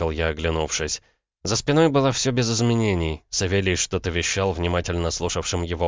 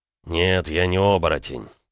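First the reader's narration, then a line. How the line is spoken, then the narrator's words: Through gritted teeth. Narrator (Russian): процедил Макеев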